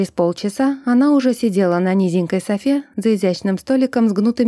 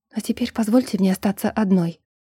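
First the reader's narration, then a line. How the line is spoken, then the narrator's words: Whisper. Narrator (Russian): прошептала Ринка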